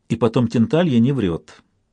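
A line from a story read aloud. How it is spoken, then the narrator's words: Quiet. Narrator (Russian): добавил он тихо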